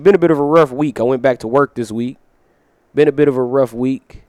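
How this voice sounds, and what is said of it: Scratchy strained voice. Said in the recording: “my voice has been a little bit scratchy ... I got a bit of that director's voice going on”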